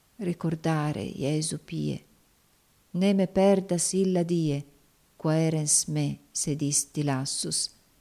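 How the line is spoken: Soft murmur to oneself. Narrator (Italian): Clair ogni tanto mormorava dolcemente a se stesso

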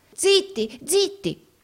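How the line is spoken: Terrified exclamation. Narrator (Italian): esclamò Gride, atterrito

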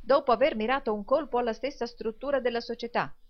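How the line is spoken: Exclaimed. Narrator (Italian): esclamò il signor Lillywick

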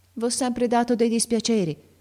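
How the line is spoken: Strained trembling voice. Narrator (Italian): continuò Ferruccio a stento, con la voce tremola

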